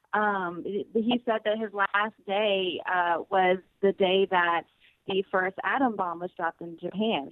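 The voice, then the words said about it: Southern American accent. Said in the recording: “Southern accent won't let me say it correctly”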